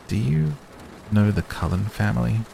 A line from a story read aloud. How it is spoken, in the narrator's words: I asked hesitantly